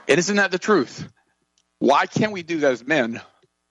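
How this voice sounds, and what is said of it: Emotional, choked-up speech. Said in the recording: “forgive me for getting emotional”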